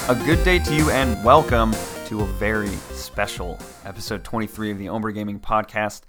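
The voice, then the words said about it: Tired, strained voice. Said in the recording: “we're very tired. I don't know if you can hear it in my voice, but I'm exhausted ... I definitely feel the tired vocal cords.”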